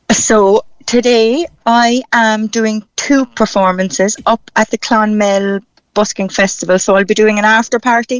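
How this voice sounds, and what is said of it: Irish Cork accent. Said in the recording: “I keep my own Cork accent, as you can hear.”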